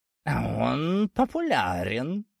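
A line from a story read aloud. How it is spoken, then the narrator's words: Angry snort. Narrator (Russian): злобно фыркнул сгусток меховой тьмы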